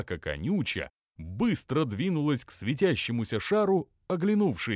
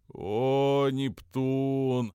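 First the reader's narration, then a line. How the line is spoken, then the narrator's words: Groaning together. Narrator (Russian): простонали братья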